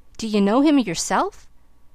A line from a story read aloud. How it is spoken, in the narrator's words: he exclaimed